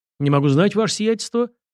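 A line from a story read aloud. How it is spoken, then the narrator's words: Brisk military report. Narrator (Russian): бодро отрапортовал подполковник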